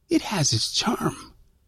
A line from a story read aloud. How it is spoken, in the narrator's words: I whispered